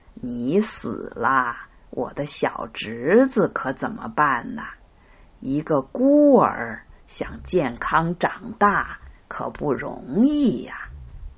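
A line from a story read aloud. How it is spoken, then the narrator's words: Mocking laughter. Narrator (Chinese): 赛特仰头大笑，说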